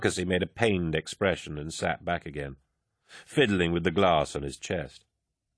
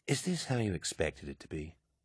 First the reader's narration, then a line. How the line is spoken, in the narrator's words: he asked quietly